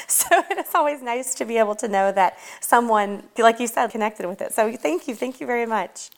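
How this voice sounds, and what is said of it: Slight hillbilly backwoods accent. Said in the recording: “I love your accent, honestly. To me, it's so cute. ... I've worked very hard to prune the hillbilly and the backwoods out of my voice, but I know that it's still there, especially with certain words”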